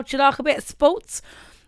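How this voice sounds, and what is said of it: Briefly put-on accent. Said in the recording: “I don't know why I went into that accent.”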